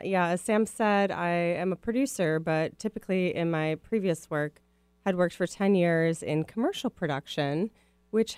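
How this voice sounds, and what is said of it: Midwestern American accent. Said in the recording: “my Midwest accent will probably come out”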